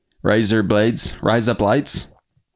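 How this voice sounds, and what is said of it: Imitated Australian accent. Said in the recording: “My favorite is Australian accents, though.”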